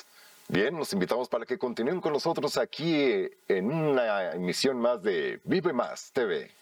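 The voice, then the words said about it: Placed, projected announcer voice. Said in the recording (Spanish): “hacer una voz para un eslogan, para una campaña publicitaria ... es colocarla, impostarla”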